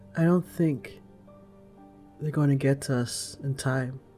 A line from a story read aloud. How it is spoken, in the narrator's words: Sarah says calmly